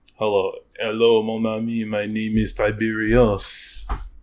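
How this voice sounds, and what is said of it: Put-on French accent. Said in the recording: “this guy has a French accent”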